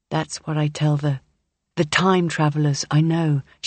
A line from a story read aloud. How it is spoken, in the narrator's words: she whispers